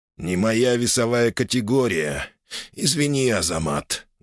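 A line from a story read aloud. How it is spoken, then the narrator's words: Muffled, heavy voice. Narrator (Russian): глухо проговорил он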